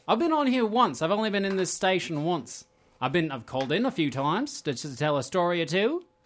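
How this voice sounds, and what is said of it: Commonwealth-sounding accent. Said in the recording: “Your accent at least feels Commonwealth.”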